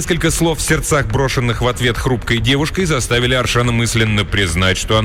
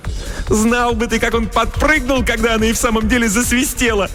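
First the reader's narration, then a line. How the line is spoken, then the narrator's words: Ringing laughter. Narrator (Russian): звонко расхохоталась Селина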